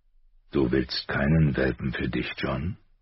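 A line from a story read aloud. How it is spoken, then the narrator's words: Quiet question. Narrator (German): fragte leise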